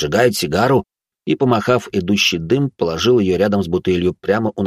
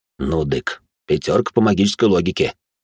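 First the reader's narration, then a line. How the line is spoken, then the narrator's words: Proud snort, then mutter. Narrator (Russian): гордо хмыкнул, а потом пробормотал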